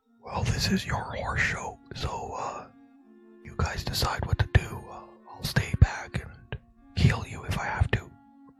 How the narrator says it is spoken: whisper

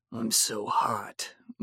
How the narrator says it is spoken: mumbled Edward

